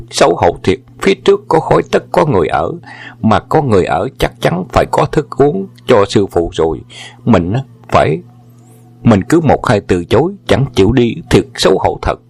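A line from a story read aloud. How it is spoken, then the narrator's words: Inward joyful exclamation. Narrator (Vietnamese): Võ Hồng Quang ngầm kêu lên mừng rỡ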